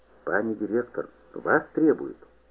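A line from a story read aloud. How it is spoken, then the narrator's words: Frightened whisper, schoolboy. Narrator (Russian): гимназист-распорядитель с испугом прошептал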